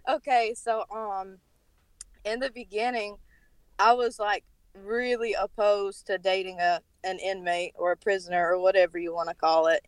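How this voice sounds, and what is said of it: Thick North Carolina accent. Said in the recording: “Sorry for my accent, by the way. I'm from North Carolina, so it's, like, really thick.”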